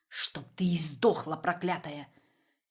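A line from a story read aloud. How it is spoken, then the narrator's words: Hissing. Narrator (Russian): Чуть что шипел Раннер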